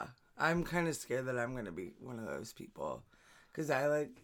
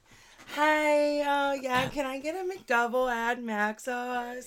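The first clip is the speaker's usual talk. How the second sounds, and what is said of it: Fake drive-through ordering voice. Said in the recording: “I have a fake voice, like a drive-through voice”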